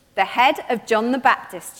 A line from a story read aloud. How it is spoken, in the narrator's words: she answered